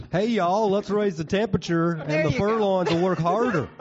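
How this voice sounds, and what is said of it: Put-on Southern American accent. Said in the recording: “you should be saying that in like a Southern accent”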